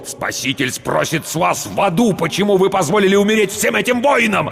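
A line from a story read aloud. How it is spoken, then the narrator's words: Impatient barking. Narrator (Russian): рявкнул потерявший терпение Рауль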